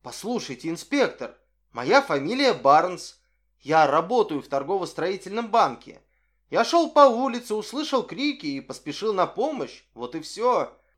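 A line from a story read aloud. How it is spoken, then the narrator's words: Bewildered exclamation. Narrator (Russian): Солон, совершенно сбитый с толку этой неожиданной переменой ролей, воскликнул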